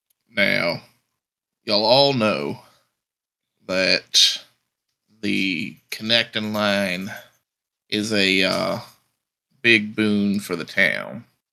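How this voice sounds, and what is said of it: Cowboy yeehaw Western accent. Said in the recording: “all of my accents are yeehaws”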